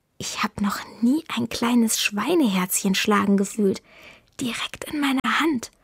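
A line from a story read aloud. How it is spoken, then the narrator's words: Whispered. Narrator (German): Paolo flüstert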